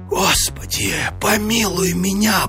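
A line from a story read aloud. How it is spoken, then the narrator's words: Terrified whisper. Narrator (Russian): прошептал он в смертельном испуге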